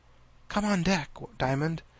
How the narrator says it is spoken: she whispered in his ear

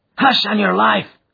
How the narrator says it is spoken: cried the miner, standing still in alarm and gazing in amazement

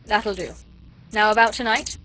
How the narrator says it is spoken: interrupted Chauvelin impatiently

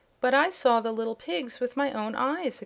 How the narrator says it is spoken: exclaimed Zeb

